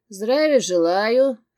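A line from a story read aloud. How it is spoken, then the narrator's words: Lazy. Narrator (Russian): лениво сказал он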